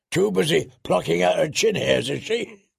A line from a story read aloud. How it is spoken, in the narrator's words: Leather spat